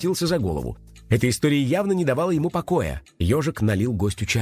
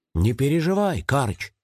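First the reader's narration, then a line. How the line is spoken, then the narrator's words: Soft. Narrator (Russian): мягко сказал он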